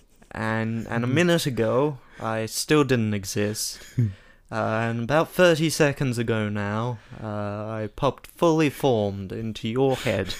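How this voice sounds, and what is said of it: Questionable put-on accent. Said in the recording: “this somewhat questionable accent”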